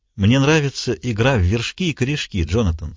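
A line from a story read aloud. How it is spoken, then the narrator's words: Pleasant. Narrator (Russian): сказал Пендергаст все еще приятным голосом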